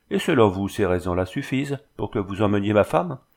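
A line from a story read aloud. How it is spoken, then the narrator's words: Ironic. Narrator (French): fit Bernard d'un ton ironique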